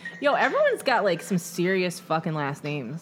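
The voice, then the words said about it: Michigan accent, slight speech impediment. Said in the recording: “I got a speech impediment and a Michigan accent”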